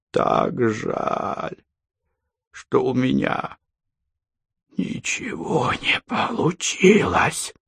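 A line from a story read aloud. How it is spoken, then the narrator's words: Rasping decaying creature. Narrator (Russian): хрипело разлагающееся существо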